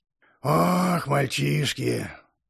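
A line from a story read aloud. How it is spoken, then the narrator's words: Sighing. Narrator (Russian): Патрик вздохнул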